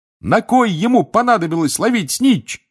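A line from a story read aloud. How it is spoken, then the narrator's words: Shouting. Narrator (Russian): кричал Рон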